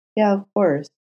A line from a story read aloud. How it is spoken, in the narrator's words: Matt said gently